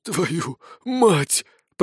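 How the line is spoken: Hoarse wheeze. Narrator (Russian): прохрипел он

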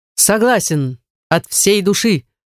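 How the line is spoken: Shout. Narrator (Russian): крикнул Вереци

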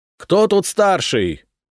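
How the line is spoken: Shouting. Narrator (Russian): прокричал Валерий

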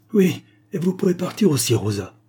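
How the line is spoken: Irritated exclamation. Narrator (French): s'écria Mademoiselle Lyle, irritée par le regard insultant de la jeune fille

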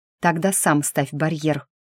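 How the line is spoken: Woman hissing. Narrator (Russian): прошипела я

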